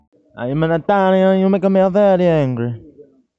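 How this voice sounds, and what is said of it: Bad put-on Italian accent. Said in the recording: “That was a really bad accent.”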